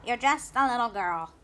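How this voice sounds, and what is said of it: Weird character voice. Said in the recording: “he said in a weird voice.”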